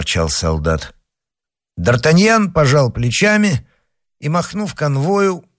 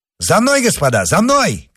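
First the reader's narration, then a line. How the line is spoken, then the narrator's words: Shouting. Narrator (Russian): крикнул он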